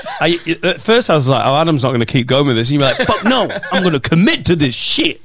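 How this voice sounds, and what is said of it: Coventry English accent. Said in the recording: “Because I'm from fucking Coventry. That's a Coventry accent”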